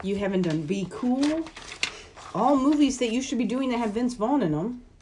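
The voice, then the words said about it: Shouting. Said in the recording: “Why are you yelling”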